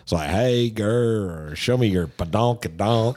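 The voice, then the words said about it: Put-on southern accent. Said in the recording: “they rap geez. With a southern accent.”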